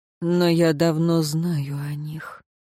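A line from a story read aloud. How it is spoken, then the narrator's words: Soft, gentle reply. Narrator (Russian): мягко ответил советник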